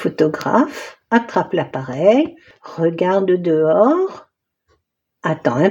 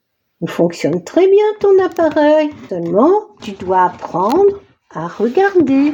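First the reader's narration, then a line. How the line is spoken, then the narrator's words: Plain. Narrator (French): dit le photographe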